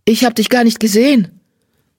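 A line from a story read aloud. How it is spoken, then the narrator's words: Called out. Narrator (German): rief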